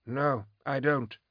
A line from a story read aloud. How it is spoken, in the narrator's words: Rickon's agreed calmly